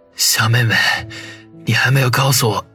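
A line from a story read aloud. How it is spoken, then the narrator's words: Breathless hoarse question. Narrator (Chinese): 他喘息了几口，哑着声音问道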